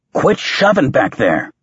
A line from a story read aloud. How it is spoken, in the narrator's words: snapped